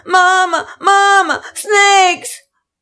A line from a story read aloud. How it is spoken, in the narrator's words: children were screaming